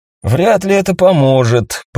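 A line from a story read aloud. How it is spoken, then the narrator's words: Grumbling. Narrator (Russian): пробурчал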